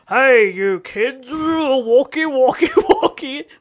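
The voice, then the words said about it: Impression of Broden Kelly. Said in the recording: “my Broden impression... That's your impression of him”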